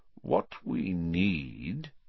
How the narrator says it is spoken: said Dumbledore slowly

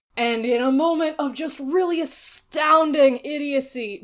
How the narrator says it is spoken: Jame blurts out

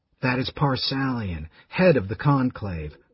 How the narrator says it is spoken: Raistlin whispered to his brother

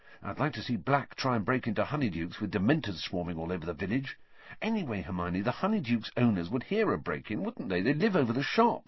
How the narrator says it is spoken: said Ron, quietly

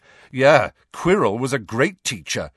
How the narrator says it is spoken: said Harry loudly

